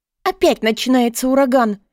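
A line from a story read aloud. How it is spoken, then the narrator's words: Terrified shriek. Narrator (Russian): В ужасе взвизгнула Минни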